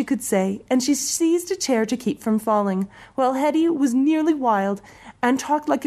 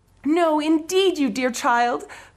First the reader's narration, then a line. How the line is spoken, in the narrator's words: cried Miss Bennet, who had found her voice